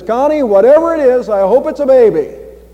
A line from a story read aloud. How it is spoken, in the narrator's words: he hollered out, and he says